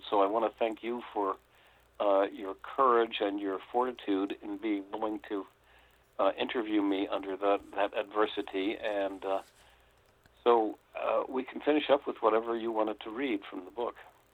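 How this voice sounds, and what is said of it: Hoarse, fading voice. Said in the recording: “I'm afraid I'm losing my voice a little bit, and both of us have had colds”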